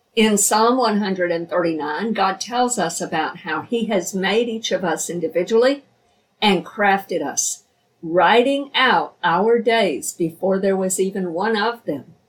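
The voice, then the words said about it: Slightly hoarse, scratchy voice. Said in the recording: “My throat is a little bit scratchy ... I've been hoarse the last few days”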